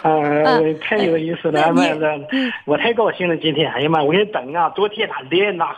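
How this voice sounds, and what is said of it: Northeastern Dalian-Dandong coastal accent. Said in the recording (Chinese): “明明像大连口音嘛 ... 丹东和大连口音差不多少 ... 那都是海蛎子味儿呗”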